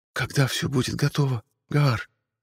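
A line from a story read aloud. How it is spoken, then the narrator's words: Whisper. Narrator (Russian): прошептала Мариэль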